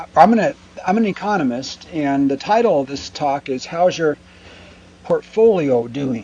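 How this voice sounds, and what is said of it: Strained voice from a cold. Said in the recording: “I'm getting over a cold, and that's my voice may or may not make it throughout the whole talk today.”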